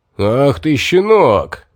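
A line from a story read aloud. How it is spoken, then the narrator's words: Roaring. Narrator (Russian): взревел Микас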